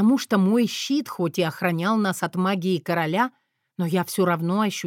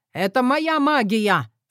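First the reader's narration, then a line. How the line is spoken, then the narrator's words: King shouting. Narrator (Russian): крикнул король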